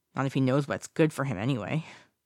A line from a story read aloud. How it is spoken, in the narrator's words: he chuckles